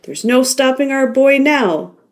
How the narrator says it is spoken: laughed Ray

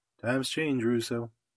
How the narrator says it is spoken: he answered quietly

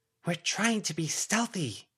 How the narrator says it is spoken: Avery hissed

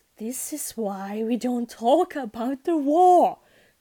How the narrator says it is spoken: groaned

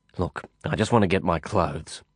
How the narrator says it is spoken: I muttered

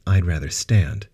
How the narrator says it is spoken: Sarah replied coldly

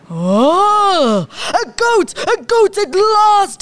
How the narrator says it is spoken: he cried

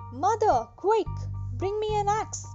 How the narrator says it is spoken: he shouted

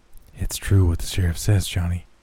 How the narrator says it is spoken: Jimmy said in little more than a whisper

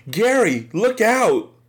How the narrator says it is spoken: Andretti suddenly yelled at me

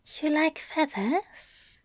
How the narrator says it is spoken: Aziraphale asked softly

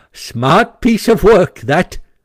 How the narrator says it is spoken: he remarked to himself, chuckling

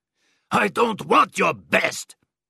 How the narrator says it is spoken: shouted Bormann

